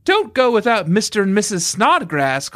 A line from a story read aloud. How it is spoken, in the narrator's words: called Mary, but her voice was entirely drowned by the noise of wind and wave and the shouting of people on the streamer